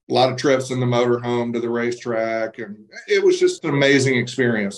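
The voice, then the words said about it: Slight Southern accent. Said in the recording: “I detect a little bit of a Southern accent there”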